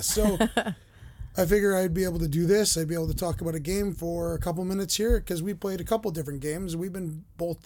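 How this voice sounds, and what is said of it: Rough, recovering voice. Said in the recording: “my voice is still not 100% back. It's still kind of rough, as you can hear”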